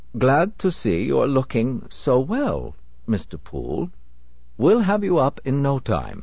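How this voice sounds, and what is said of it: Odd accent, slow delivery. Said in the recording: “Again that odd accent and slow delivery”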